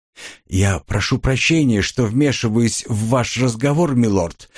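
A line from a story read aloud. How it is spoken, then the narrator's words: Quiet bird voice. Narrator (Russian): негромко произнес птичка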